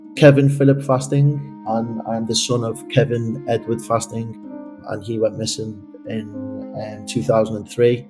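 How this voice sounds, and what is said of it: Liverpool accent. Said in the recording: “I'm from Liverpool, as you can probably tell by my accent”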